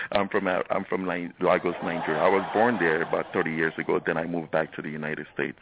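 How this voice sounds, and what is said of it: Nigerian accent. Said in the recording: “people may recognize by your accent that you were at least acquired an accent somewhere else ... I will not hide my accent. I am from the motherland ... I've just not been able to lose the accent ... You have not lost it.”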